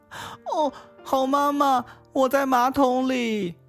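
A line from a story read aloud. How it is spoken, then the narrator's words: Thin little voice calling. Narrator (Chinese): 一个细细的声音喊叫道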